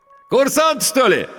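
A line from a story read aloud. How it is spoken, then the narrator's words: Ringing shout. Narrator (Russian): звонко крикнул водитель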